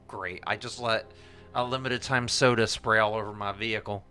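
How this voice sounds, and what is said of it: Put-on Oklahoma country accent. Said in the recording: “Why did you get an accent? ... Okie all girl”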